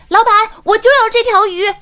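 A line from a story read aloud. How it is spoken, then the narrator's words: Stunned, shouting. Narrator (Chinese): 我当时就愣住了，随后我就大喊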